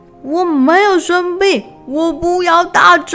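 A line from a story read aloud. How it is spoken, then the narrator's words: Worried shouting. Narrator (Chinese): 小猪担心的大叫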